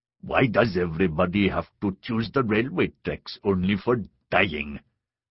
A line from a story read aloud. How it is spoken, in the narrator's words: grumbled